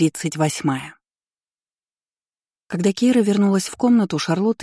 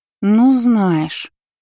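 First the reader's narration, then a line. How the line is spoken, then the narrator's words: Drawled. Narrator (Russian): протянула затем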